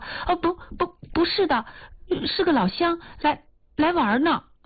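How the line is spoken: Hurried. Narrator (Chinese): 一秦娥急忙说

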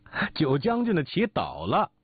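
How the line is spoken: Hearty laughter. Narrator (Chinese): 小云哈哈大笑

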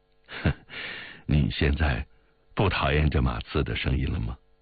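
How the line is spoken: Laughing. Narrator (Chinese): 志坚笑道

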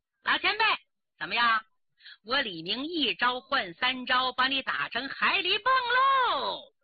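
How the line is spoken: Hearty laughter. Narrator (Chinese): 缺德十八手李明哈哈大笑

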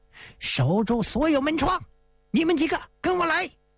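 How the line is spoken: Shouting. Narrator (Chinese): 洪警长冲宪兵们大喊

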